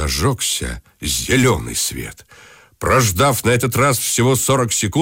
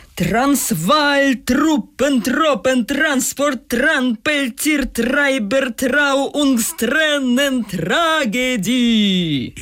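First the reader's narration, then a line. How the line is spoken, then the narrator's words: Shouted. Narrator (Russian): я крикнул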